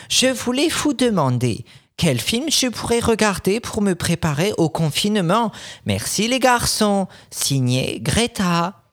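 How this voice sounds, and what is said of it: Fake Swedish accent, sounds German. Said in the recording (French): “mon accent suédois est. ... il est presque allemand ... ça fait un peu Hans Gruber”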